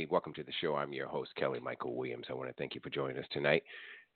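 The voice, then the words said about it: Congested, throaty voice. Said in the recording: “most of you can probably hear it in my voice. I got a little bit of head cold, a little throat issues ... when you hear me clearing my throat”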